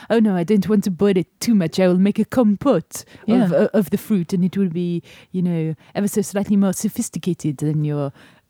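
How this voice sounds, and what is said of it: Put-on French accent. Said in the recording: “your accents, yeah, are improving at least ... French.”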